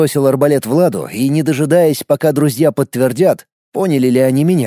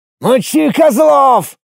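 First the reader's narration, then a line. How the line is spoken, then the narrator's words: Yelling. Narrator (Russian): заорал я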